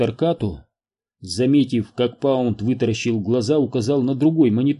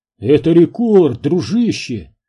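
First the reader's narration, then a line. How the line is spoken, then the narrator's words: Exclaiming. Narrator (Russian): воскликнул Отто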